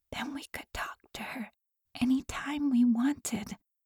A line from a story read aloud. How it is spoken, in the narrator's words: she whispered